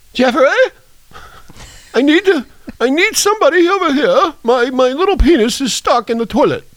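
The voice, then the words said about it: Put-on accent. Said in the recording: “I'm doing that pretty good, ain't I? ... For somebody who doesn't know how to do accents,”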